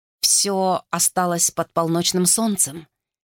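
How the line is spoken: Quiet speech. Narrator (Russian): тихо сказал Вулф

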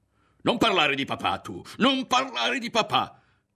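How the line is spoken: Screamed. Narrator (Italian): urlò

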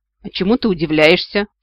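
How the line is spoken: Kitten snorting. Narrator (Russian): фыркнул котик

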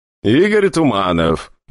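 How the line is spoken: Even more dismissive visitor. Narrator (Russian): еще более пренебрежительным тоном проговорил посетитель

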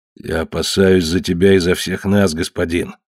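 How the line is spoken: Sullen grumble. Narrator (Russian): угрюмо проворчал Уахинеп

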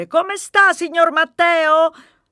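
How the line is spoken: Cleaning lady yelling question. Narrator (Italian): Maria, la signora delle pulizie, è l'unica che mi chiede, anzi urla

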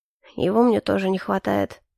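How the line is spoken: Grudging mutter. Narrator (Russian): нехотя буркнул Калипсо

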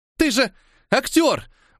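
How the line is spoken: Breathless exhale. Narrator (Russian): выдохнула Элечка

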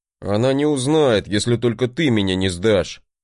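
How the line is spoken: Grumbling. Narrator (Russian): проворчал брат

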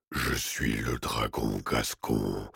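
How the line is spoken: Cavernous declaiming voice. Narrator (French): déclama la créature d'une voix caverneuse

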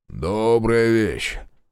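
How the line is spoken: Deep bass voice. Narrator (Russian): пробасил Егорыч

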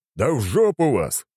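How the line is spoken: Deep bass. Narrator (Russian): пробасил он

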